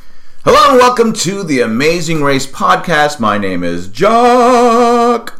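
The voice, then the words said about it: Loud, yelling voice. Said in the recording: “you're yelling at me ... I am yelling ... I'm very loud. I'm very loud. I apologize for being loud.”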